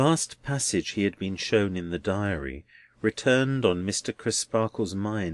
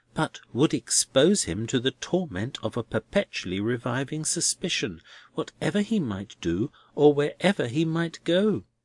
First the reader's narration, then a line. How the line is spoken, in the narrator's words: Crisparkle warmly